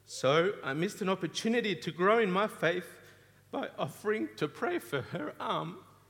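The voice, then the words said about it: Voice rising high, emotional. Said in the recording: “My voice is going high.”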